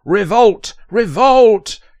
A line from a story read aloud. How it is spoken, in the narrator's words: she shouted repeatedly